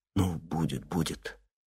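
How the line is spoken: Whispering. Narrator (Russian): Только шептал

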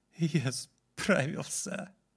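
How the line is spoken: Speaking, then bursting into tears. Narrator (Russian): сказал юноша и разрыдался, словно сдерживался всю свою жизнь

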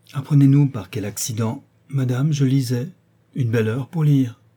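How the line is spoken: Exclaimed. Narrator (French): s'écria le marquis

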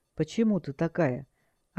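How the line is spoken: Quiet, mysterious question. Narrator (Russian): Наемник загадочно улыбнулся и тихо спросил

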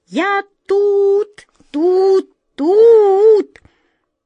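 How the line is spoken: Shrill distant voice. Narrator (Russian): визгливый голос доносился откуда-то издалека

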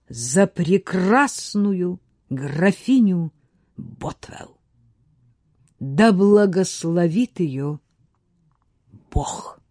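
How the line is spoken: Proud, loving exclamation. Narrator (Russian): Пятый, глядя на отца с гордостью и любовью, воскликнул

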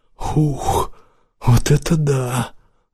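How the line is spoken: Breathy exclamation. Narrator (Russian): Выдохнул

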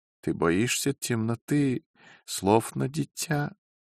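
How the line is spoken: Joking yet sad. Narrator (Russian): Дядя Джозеф сказал, и шутливо, и печально

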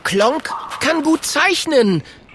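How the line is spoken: Calling out. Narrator (German): ruft

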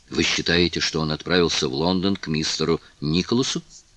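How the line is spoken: Quiet question. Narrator (Russian): спросила Кларинда так же тихо

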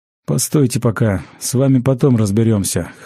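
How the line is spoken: Snorting grunt. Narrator (Russian): хмыкнул тот, кого убийцы назвали учителем

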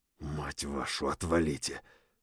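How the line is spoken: Through gritted teeth. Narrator (Russian): процедил сквозь зубы

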